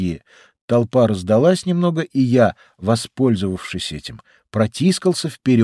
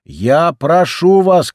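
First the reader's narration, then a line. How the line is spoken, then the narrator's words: Shouting. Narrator (Russian): кричала Гильви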